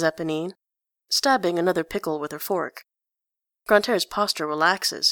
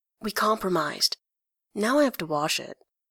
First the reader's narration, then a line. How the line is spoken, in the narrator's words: stage whispers